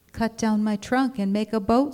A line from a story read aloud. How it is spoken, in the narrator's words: said the tree